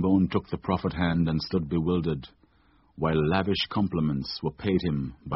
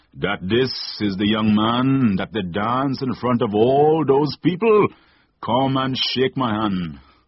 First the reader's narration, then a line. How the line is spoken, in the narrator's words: declared Mother Sally in a booming voice